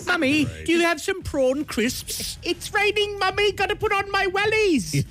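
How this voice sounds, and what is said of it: Put-on British child accent. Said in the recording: “picking up British accents ... why they have a British accent.”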